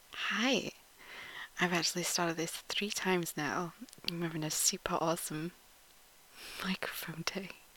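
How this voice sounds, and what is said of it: Yorkshire Northern English accent. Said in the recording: “accent challenge ... I'm from Yorkshire, Northern England.”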